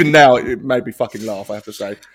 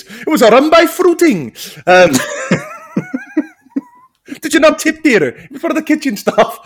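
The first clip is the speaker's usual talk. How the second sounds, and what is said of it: Put-on Indian accent. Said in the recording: “Speaking of your accent ... Did I sound Indian? ... I thought I'd done an all right impression there.”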